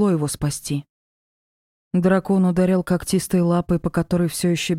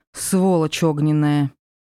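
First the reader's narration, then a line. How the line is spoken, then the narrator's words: Growled. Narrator (Russian): Прорычала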